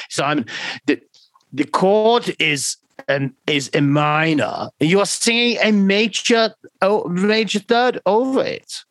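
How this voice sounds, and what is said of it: German-accented imitation of Giorgio. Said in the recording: “He does kind of have a German accent,... because he's Swiss.”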